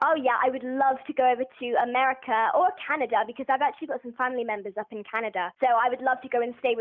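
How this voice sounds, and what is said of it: Usual voice. Nothing is said of it.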